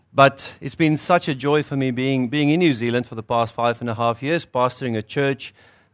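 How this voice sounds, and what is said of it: South African accent. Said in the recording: “You'll hear from my accent, it's South African.”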